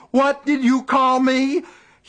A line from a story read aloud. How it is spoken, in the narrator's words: He screamed it over and over again